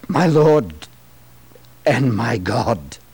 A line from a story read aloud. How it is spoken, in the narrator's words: a spontaneous confession spilled from his lips as he exclaimed